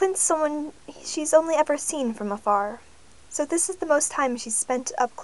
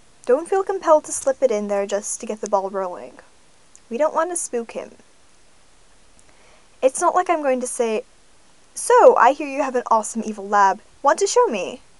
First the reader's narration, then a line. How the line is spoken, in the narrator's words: Darcy says dryly